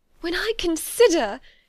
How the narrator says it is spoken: she added in a yet more agitated voice

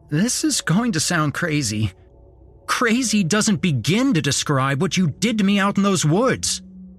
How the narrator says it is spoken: snapped

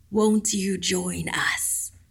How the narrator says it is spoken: It breathed

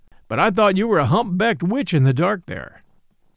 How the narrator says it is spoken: said the man, with a short laugh

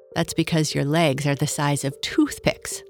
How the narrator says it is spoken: laughed Kurt

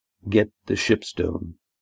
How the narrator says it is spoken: said Arneb calmly

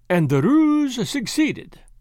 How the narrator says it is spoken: said Poirot cheerfully

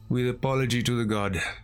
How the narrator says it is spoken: he sighed

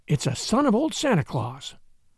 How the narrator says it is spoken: whispered Addie

